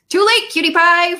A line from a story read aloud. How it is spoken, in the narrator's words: Fred said cheerfully